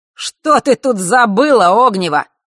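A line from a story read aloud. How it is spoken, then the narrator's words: Sudden shout. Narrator (Russian): вдруг выкрикнул Марк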